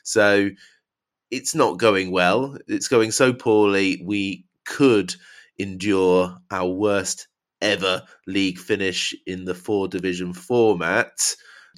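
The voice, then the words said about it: Poor, strained speaking voice. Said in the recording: “my voice is rubbish. I can't help it.”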